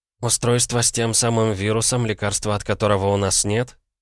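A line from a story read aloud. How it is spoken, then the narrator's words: Too calm question. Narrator (Russian): как-то слишком спокойно уточнила Ванда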